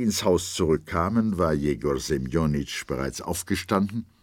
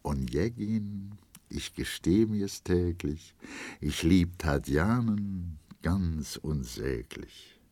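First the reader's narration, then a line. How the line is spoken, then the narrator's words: Soft humming. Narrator (German): summte leise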